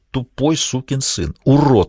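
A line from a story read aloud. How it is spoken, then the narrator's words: Muttered. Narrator (Russian): бормотал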